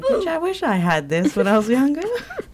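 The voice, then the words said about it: Briefly slips into a put-on accent. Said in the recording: “Why did I just do that accent?”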